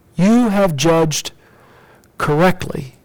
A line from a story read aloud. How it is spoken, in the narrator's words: Jesus said